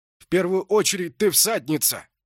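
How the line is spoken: Shouting. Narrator (Russian): крикнул он

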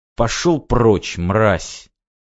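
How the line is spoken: Hissed through a mask filter. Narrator (Russian): процедил я сквозь фильтры

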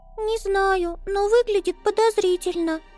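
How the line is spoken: Squeaked. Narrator (Russian): пискнула Амелия

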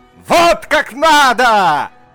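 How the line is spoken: Doctor shouting into ear. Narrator (Russian): Закричал доктор в ухо Перхуши

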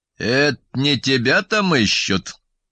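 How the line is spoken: Sudden creaky voice. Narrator (Russian): проскрипел вдруг батя

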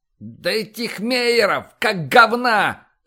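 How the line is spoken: Loud yell. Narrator (Russian): В голос заорал Изя

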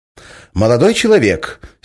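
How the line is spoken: Angry declaration. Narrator (Russian): сердито заявил голос Николаевой

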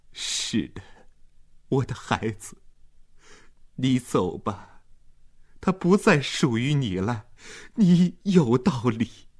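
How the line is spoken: Sudden sobbing. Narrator (Chinese): 马尔塔忽然抽泣起来

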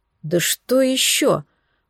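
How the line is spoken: Mumble. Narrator (Russian): пробормотал

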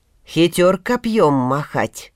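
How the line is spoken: Grumbled. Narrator (Russian): пробурчал тогда Добрыня Никитич

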